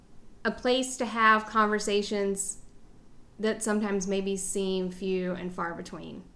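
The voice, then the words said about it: Southern American accent. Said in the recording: “progressive, smart conversation in a Southern accent.”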